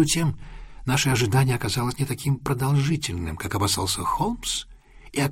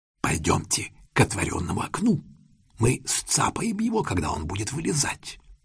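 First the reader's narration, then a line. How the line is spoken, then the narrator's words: Whisper. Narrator (Russian): прошептал Лестрейд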